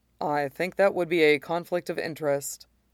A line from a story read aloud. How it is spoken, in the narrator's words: he says dryly